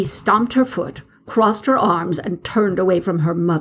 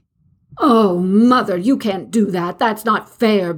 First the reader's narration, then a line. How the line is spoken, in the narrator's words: cried